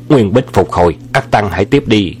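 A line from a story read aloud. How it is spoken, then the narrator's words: Loud shout. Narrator (Vietnamese): chàng quát to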